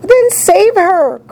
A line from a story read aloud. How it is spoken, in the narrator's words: cried Mrs